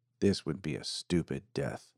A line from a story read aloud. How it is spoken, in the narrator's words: muttered